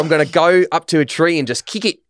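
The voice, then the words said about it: Put-on Australian accent, not authentic. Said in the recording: “That's not a real Australian accent.”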